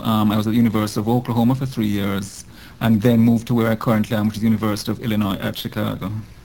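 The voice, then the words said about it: Jamaican accent. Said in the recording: “as people will soon be able to tell from my accent, I'm not a Native American. I'm originally from Jamaica”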